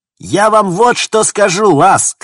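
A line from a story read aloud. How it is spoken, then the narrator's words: Shouted. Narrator (Russian): крикнула Стил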